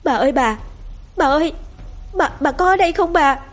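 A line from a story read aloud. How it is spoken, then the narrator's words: Trembling, breathless loud call. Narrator (Vietnamese): Giọng nói của cô Lý run run vì lạnh, vừa thở hổn hển mà gọi lớn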